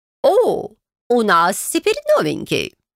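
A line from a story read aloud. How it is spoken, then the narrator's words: Joyful exclamation. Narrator (Russian): радостно воскликнула леди Камиль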